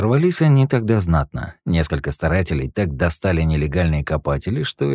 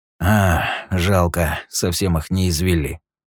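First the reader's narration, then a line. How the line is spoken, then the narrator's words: Sigh. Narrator (Russian): вздохнул Юджин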